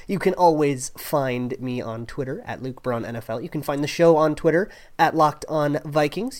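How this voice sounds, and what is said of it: Sick, rough-sounding voice. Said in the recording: “I am still a little under the weather ... my voice is kind of gross and sickly”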